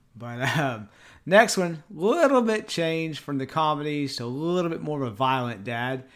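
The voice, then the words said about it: Deep East Texas accent. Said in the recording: “my deep East Texas accent”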